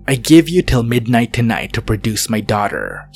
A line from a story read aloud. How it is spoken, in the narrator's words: growled